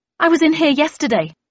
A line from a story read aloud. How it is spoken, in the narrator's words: I blurted out